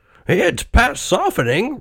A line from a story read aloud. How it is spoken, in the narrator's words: replied her husband cheerfully